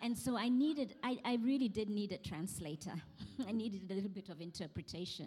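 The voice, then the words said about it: Queen's English accent. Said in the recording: “I was coming from a place where we spoke the Queen's English ... they would hear my accent”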